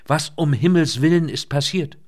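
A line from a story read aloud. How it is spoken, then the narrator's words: Calling out. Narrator (German): rief sie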